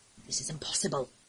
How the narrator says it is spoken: Connor murmured to Jerris

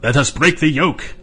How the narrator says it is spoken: they shouted

